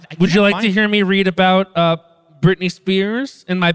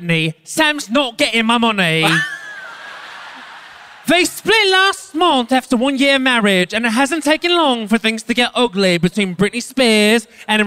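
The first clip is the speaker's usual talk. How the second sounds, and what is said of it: Bad put-on British accent. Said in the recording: “all my British accents are, I'm going to say, ... Bad Adele ... my bad Adele”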